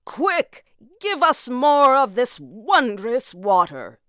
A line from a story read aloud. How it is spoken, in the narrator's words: they cried